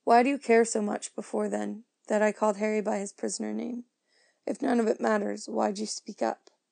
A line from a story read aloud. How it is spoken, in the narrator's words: 13-year-old girl's giggle has never sounded so wrong